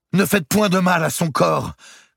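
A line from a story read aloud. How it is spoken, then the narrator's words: Shouted. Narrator (French): cria Isabelle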